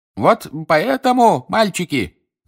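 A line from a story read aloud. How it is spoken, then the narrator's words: Shouting over crowd roar. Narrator (Russian): закричал мистер Уизли, перекрывая рев толпы внизу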